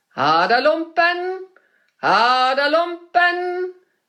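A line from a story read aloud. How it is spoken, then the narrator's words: Male calling. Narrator (German): rief er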